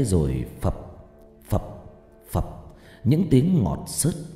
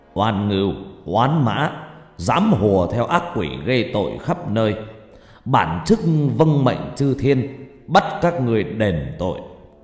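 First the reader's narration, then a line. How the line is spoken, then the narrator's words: Deep gruff voice. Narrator (Vietnamese): Cụ cất giọng ồm ồm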